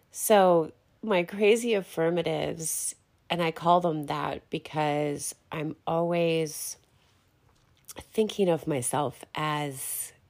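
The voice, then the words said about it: Sniffly, slightly sick-sounding voice. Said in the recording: “I'm like sniffly or my voice is a little off. I'm just getting over the COVID crap... still sound like I'm, you know, kind of sick”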